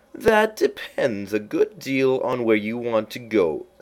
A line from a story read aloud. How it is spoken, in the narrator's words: said the cat